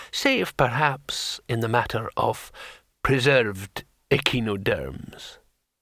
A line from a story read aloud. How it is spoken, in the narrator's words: said the old man calmly